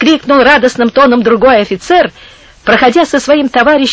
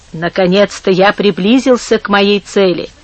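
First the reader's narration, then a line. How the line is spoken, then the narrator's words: Quiet speech. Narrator (Russian): проговорил тихо один из сеньоров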